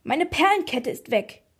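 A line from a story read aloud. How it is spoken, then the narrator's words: Old woman shrieking. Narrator (German): kreischte die Oma mit dem Rollator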